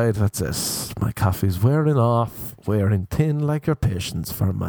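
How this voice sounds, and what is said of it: Usual voice. Nothing is said of it.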